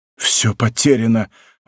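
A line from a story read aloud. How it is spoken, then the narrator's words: Shocked exclamation. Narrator (Russian): воскликнул Бекингем, бледный как мертвец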